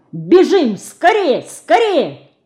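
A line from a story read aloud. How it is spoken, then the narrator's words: Desperate angry shout. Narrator (Russian): словно осененный отчаянием, он гневно крикнул над самым ее ухом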